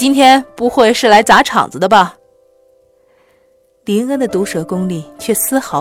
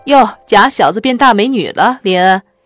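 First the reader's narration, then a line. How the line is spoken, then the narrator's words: Joking young man. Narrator (Chinese): 有的男生开玩笑地说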